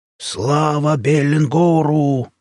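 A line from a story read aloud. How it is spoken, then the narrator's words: Warriors' battle yell. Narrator (Russian): завопили хвостатые воины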